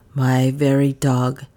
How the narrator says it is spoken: sighed poor Rip

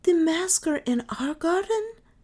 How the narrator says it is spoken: she exclaimed

